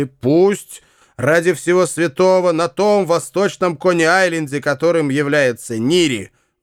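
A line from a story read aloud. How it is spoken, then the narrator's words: Exclaiming. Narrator (Russian): воскликнул Нири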